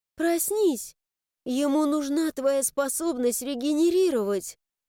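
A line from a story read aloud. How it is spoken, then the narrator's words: Trembling, tearful voice. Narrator (Russian): Эти слова Кристы, сказанные дрожащим голосом, в котором звенели слезы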